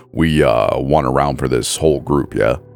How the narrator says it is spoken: he says, forcing his voice down two octaves while doing his best imitation of an alpha male

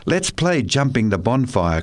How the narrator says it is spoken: cried someone

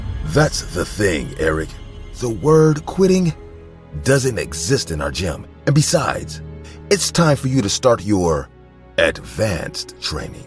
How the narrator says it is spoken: Troy then calmly looked at me before saying

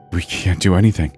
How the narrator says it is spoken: stammered Wyatt

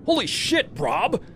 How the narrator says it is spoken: yelled

